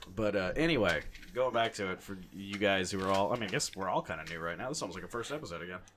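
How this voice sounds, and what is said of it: Usual voice. Nothing is said of it.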